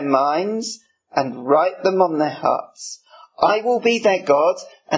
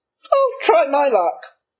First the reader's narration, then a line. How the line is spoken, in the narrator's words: he chirped up